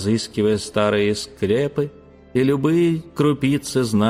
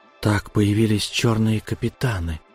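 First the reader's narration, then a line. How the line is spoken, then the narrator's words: Breathed out. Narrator (Russian): выдохнул я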